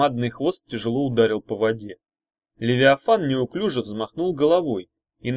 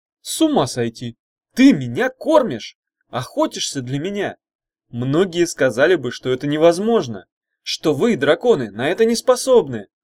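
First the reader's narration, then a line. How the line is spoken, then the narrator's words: Exclaiming. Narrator (Russian): воскликнул Иван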